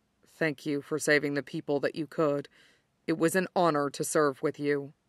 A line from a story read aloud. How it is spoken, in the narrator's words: he said softly